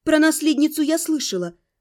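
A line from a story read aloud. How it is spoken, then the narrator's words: Calm, restrained indignation. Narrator (Russian): стараясь сдержать собственное возмущение, спокойно возразила в ответ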